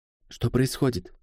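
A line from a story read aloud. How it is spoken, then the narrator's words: Quiet question. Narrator (Russian): тихо спросила Бланка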